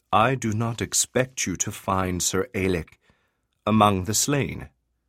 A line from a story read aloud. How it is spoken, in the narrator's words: Kalium said quietly